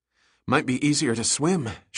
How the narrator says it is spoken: gasped

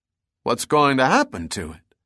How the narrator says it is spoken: spoke quietly, almost reverently

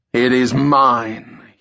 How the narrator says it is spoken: roared back

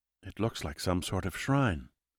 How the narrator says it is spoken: Gamay whispered

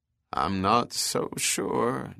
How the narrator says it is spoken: John Cazal said softly under his breath

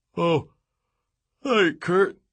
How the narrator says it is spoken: said with a yawn

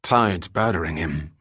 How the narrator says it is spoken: muttered Falconer

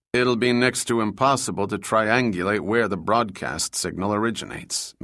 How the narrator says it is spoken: Max replied

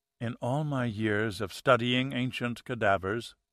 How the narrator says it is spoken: he said softly

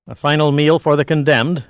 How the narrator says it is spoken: Diaz asked harshly

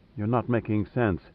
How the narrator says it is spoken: said flatly

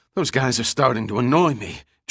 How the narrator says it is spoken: Giordino gasped as both men stepped up their pace

